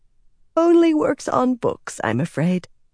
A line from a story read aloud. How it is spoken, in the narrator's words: Verin said, yawning